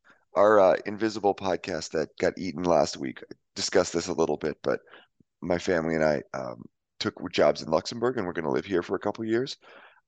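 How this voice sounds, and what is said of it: Hoarse voice. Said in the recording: “I'm a bit hoarse. I apologize for my voice... I assume you're hoarse just because it's like six in the morning”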